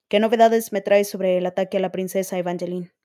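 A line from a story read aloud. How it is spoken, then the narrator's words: Plain question. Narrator (Spanish): preguntó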